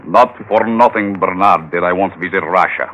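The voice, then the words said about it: Convincing put-on Russian accent. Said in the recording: “You sound very convincing with that accent.”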